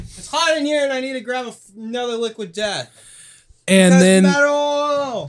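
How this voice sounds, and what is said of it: Yelling from away from mic. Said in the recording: “I'm yelling because I'm away from my. mic.”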